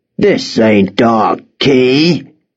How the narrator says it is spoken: growled

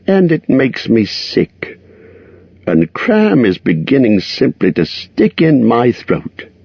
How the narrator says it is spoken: grumbled to himself

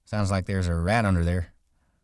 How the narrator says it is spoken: George said

